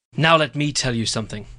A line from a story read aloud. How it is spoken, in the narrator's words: I snapped into the mic